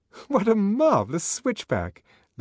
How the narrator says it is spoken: Lenina laughed delightedly

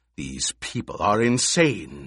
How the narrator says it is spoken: the Emperor snarled

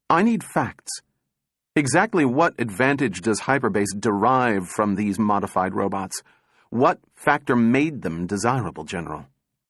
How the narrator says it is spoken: said sharply

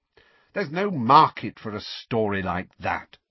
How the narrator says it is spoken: said Rita coldly

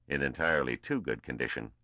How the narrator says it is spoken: responded Barisov dryly

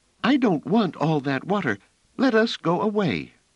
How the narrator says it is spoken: Phelim said in a half-choked manner

